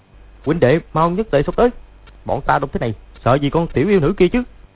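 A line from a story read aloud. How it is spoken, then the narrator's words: Sharp shout. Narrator (Vietnamese): Lộc Thanh Đốc quát lên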